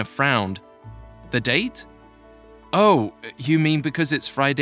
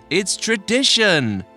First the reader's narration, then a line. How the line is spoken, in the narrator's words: shouted a young woman from down the table